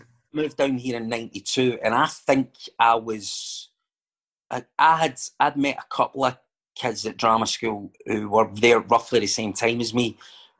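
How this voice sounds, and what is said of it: Retains original regional accent. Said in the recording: “you've got your accent and everything still”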